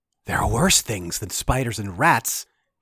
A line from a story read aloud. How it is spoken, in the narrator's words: he whispered